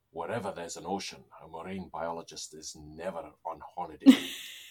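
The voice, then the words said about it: Imitates another person's voice, badly. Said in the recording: “terrible Sean Connery impersonation”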